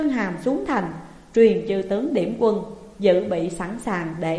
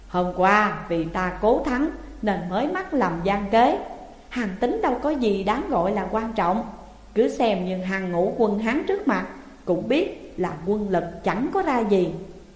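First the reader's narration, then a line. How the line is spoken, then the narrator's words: Smiling. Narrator (Vietnamese): Chương Hàm mỉm cười rồi nói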